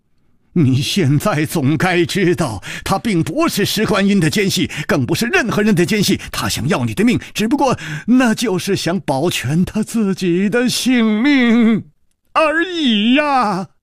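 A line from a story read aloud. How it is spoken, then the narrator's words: Angry roar. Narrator (Chinese): 李玉涵怒吼道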